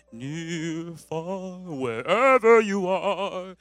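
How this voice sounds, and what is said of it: Sung imitation of a pop diva. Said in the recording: “my best Celine Dion impression”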